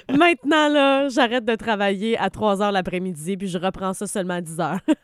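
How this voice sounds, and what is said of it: Québécois French accent. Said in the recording (French): “l'accent québécois ... notre accent”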